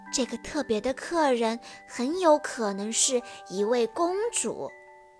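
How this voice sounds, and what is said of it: Quiet, hushed voice. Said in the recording (Chinese): “安博小声地对苏菲亚说。”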